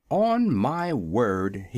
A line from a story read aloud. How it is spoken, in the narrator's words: he exclaimed